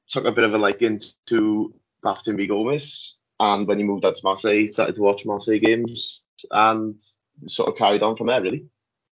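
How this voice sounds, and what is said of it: Welsh accent. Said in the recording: “as you can tell by my voice, I'm Welsh”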